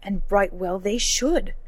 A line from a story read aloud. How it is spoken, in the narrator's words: thundered Gawain